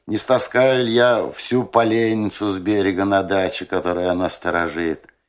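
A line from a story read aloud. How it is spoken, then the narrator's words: Familiar, friendly question. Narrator (Russian): женщина смеялась моим шуткам и свойски уже спрашивала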